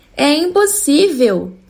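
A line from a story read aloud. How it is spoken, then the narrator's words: Shout. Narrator (Portuguese): gritou ele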